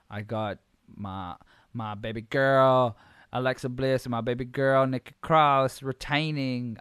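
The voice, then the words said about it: Put-on accent. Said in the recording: “I don't know why I'm doing accents”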